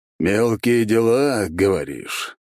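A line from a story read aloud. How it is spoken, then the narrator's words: Drawled. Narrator (Russian): протянул майор Горемыка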